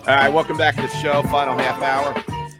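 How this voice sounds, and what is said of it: Raspy, strained voice. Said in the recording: “apologize for my voice. It'll get better as the week goes on... I got a little raspiness also”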